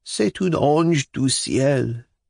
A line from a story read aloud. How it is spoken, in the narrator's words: He exclaimed